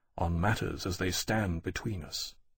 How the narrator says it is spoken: Lawrence said quietly

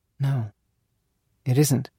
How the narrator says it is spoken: she murmuring

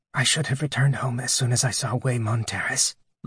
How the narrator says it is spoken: Lyndon whispered

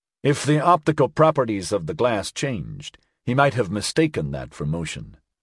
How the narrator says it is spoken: Axford said

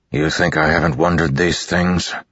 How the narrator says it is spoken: Dalinar said, his voice cold

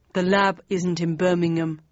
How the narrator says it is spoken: said Stig

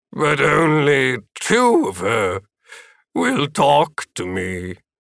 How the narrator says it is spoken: Philip moaned

